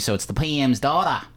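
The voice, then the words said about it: Poor put-on Australian accent. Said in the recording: “my horrible Australian accent”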